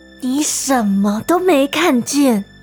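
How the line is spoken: Whispered in ear. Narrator (Chinese): 莫伊在大汉耳边轻声说

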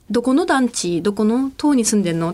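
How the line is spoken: Plain question. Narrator (Japanese): って聞いたら

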